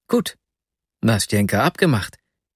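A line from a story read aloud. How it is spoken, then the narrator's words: Delighted exclamation. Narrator (German): rief ich entzückt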